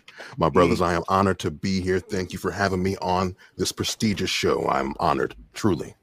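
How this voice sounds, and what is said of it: Very deep male voice. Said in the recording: “D-Voice crew ... There's a lot of deep voice going on.”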